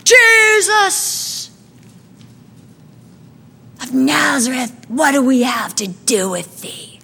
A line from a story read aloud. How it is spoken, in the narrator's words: a man began to shout out in the midst of the synagogue